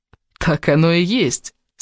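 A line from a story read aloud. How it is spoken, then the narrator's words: Laughing exclamation. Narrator (Russian): смеясь воскликнул Кевин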